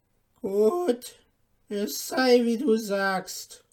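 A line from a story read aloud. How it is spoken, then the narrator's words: Grim old woman calling. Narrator (German): rief die Alte mit grimmigem Blick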